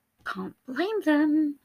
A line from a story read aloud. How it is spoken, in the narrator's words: Patton whispered it out so quietly the other man didn't hear